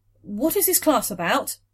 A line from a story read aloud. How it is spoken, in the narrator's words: she blurted